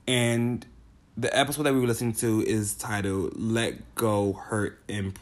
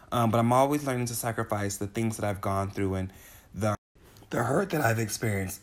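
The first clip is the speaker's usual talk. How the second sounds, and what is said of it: Voice cracks mid-sentence. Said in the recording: “my voice cracked.”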